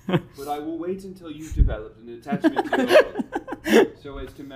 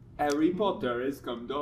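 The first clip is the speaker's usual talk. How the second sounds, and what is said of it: Exaggerated put-on accent. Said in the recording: “Such an unserious accent.”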